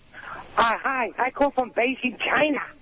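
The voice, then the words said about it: Phony put-on foreign accent. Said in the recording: “With a phony accent.”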